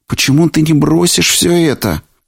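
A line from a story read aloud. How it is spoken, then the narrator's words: Pleading exclamation. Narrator (Russian): умоляюще воскликнула Дотти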